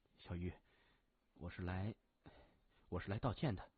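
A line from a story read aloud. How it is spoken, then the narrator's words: Soft. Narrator (Chinese): 谢文东轻声说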